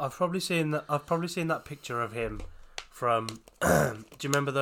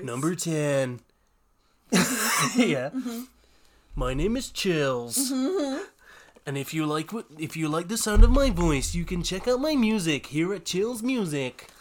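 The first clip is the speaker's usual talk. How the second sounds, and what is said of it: Imitates another person's weird voice. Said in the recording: “with a really weird voice”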